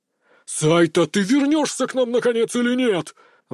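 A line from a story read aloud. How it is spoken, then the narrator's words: Roaring shout. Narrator (Russian): взревел режиссер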